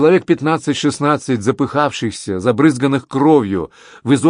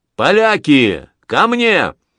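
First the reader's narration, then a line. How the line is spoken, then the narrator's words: Shouted. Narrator (Russian): Анри крикнул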